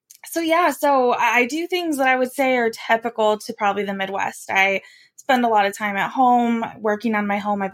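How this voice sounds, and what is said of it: Nasal Midwestern American accent. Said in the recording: “I have a fun Midwestern nasally accent that'll be very noticeable throughout our conversation”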